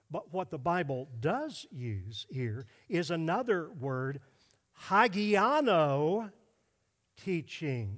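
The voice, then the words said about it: Greek words in an Oklahoma accent. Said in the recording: “that's Greek with an Oklahoma accent ... terrible”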